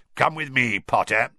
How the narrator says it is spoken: he growled

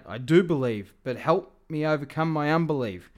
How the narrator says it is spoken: The father instantly cried out

